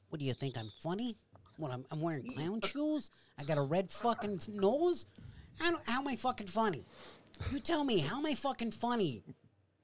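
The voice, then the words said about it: Imitates another person's voice. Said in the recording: “When I listen to you do that on here, it sounds so perfect... Great impersonation”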